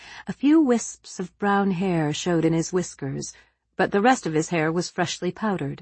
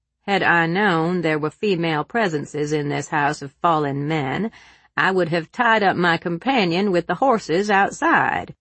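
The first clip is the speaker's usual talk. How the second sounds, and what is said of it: Comically loud southern accent. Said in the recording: “he said in a comically loud southern accent”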